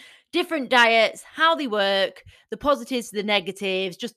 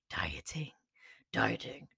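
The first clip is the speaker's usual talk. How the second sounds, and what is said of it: Word spoken in deep voice. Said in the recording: “Don't know why I had to do the deep voice.”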